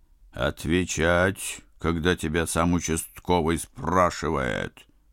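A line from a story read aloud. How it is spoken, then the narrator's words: Barking. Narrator (Russian): рявкнул Горох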